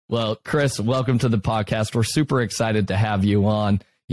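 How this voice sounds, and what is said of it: Smooth radio voice. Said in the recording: “You got that nice and smooth radio voice.”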